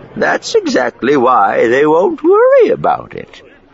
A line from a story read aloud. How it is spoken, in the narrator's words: Miranda said cheerfully